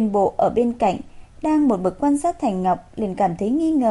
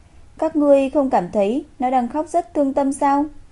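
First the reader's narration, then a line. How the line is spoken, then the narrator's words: Sighing. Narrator (Vietnamese): Thành Ngọc thở dài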